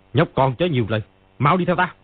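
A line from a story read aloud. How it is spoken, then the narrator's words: Angry. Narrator (Vietnamese): Ni Ma Tinh tức giận nói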